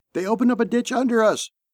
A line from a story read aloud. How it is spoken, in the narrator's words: yelled its driver over the platoon net